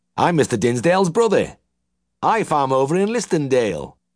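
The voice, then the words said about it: Nasal West Riding Yorkshire accent. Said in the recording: “he cried in a nasal twang of the West Riding”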